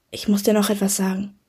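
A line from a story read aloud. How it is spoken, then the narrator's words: Whisper. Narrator (German): flüsterte sie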